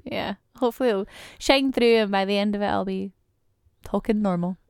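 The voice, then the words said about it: Scottish accent. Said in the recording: “my Scottish accent is slowly coming through and the phone voice is gradually turning down ... it was a lot more Scottish”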